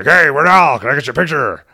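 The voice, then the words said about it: Gruff newspaper-editor character voice. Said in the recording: “in character voice,”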